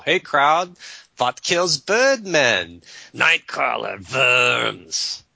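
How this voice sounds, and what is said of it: Vaguely German announcer accent. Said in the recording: “An announcer with a vaguely German accent's”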